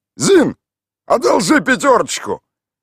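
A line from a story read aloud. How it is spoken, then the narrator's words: Shouted. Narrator (Russian): выкрикнул Михаил Иванович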